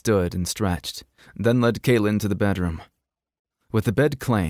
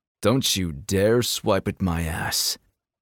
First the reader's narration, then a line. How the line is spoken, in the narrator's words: he growled at the cat